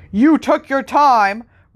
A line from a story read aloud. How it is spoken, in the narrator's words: roared Vernon Dursley